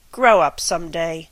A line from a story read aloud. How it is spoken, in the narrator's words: said Cyril bitterly